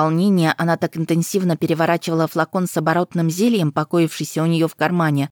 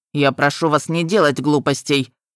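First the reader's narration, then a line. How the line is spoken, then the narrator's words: Stern. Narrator (Russian): строго сказал он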